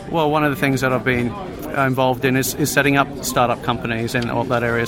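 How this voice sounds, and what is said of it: Australian English accent. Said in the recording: “That accent, is that a Finnish accent there? ... Well, it's Australian, English.”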